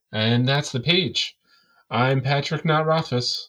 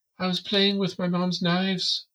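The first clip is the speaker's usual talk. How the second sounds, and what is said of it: Reader's little girl voice. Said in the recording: “I like your little girl voice. ... trying to do feminine voices”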